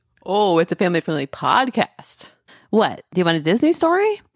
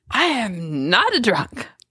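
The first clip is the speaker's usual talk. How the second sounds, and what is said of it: Poor imitation of another person's voice. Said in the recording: “I'm not a good Nixon impersonator ... that is a terrible Nixon impersonation.”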